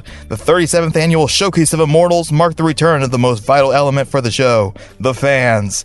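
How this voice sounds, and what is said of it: Southern American accent. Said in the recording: “It's a Southern accent on Southern sports ... Southern accent.”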